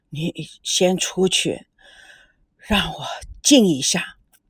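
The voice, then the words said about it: Trembling, shaky voice. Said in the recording (Chinese): “颤抖的声音说”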